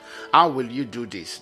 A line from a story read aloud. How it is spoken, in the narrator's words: the Lord asked